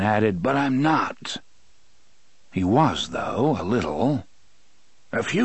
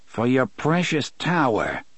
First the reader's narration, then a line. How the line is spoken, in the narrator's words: Eddie sneered